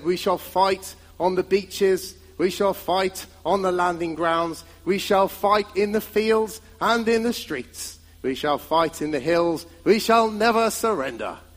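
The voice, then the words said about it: Winston Churchill impression. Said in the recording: “How was that for an impression? That was not bad, was it?”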